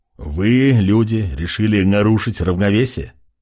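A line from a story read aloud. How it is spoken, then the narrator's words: Scoffing with disgust. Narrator (Russian): Хмыкнув, однорукий скривился в отвращении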